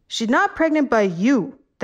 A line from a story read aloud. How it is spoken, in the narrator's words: the man yelled